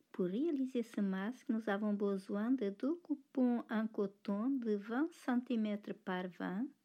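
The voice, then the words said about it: Slight Portuguese accent in French. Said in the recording (French): “elle est un petit accent portugais”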